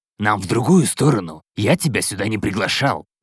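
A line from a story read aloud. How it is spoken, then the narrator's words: Irritated speech. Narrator (Russian): проговорил раздраженно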